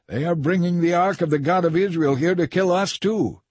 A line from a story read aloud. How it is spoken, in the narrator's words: they cried out